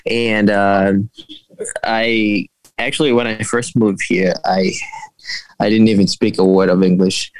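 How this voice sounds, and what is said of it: Foreign accent with some Boston dialect. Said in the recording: “I'm picking up an accent... I couldn't place it... there's part of it that's a little bit of a Boston dialect”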